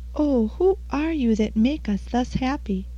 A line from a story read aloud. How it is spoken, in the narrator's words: In joy and wonder the exiles then exclaimed